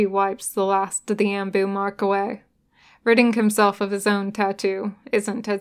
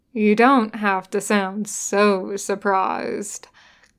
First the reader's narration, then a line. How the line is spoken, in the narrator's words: Kakashi drawls